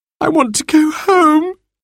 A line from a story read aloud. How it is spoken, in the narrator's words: wailed